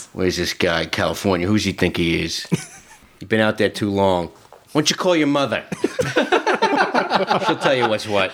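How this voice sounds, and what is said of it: Put-on New York accent. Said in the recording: “New York accent ... all the New Yorkers and Bostonians are screaming at you”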